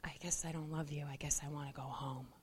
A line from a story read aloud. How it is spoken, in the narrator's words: he whispers